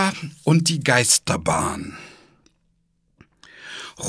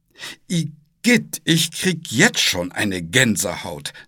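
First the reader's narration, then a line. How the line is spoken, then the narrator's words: Plain. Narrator (German): sagte Paul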